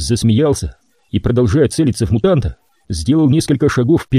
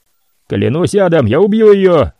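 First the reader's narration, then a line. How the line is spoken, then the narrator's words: Shouting. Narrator (Russian): прокричал мутант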